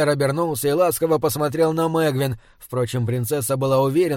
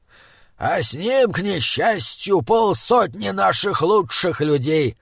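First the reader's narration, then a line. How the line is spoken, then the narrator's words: Gruff old man's growl. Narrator (Russian): рыкнул старый Краубан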